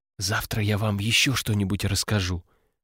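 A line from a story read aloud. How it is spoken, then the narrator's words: Whispered promise. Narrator (Russian): шепотом пообещала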